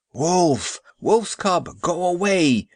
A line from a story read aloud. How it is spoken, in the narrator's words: shouted the priest